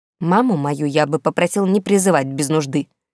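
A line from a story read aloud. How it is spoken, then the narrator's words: Smug snort. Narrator (Russian): фыркнул чрезвычайно довольный собой крыс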